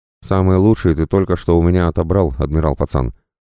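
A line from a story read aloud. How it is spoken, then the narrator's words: Reproachful pirate grumble. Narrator (Russian): с упреком буркнул пират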